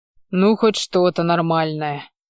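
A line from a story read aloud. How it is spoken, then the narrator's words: Relieved sigh. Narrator (Russian): Облегченно вздохнул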